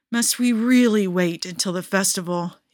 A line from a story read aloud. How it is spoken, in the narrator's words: he groans